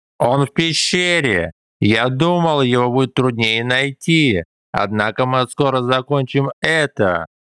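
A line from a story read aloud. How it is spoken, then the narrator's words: Laughing. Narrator (Russian): Засмеялся Джао Куни Сань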